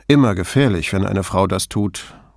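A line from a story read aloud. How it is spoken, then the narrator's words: Dry reply. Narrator (German): gab Brunetti trocken zurück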